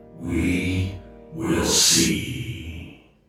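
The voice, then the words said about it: Evil menacing character voice. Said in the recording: “that evil voice say”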